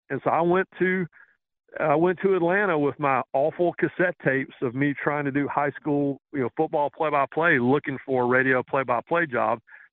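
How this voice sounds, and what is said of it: Southern American accent. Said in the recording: “someone with my accent ... Red Barber was Southern.”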